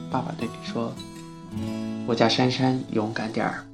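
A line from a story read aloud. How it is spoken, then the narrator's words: Gentle voice. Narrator (Chinese): 温柔的声音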